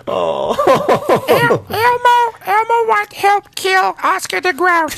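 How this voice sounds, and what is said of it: Elmo puppet character voice. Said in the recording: “That's actually a pretty good Elmo impression, dude. ... pretty good and terrifying”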